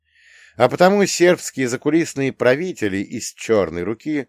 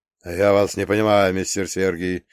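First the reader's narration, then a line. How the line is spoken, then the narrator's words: Mutter. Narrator (Russian): пробормотал Деголь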